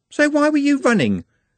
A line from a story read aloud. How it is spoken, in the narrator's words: said Juliet sharply